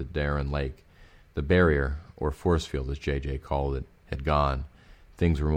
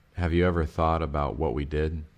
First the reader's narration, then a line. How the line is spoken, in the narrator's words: I groaned